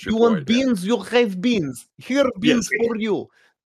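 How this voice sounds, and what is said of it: Bad put-on Russian accent. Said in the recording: “This is a bad Russian accent.”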